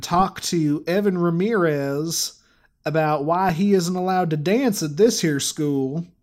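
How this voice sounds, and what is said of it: Put-on American country accent. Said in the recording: “I gotta put on some sort of country dialect ... that thing I just did was about as good as my country accent was 10 years ago”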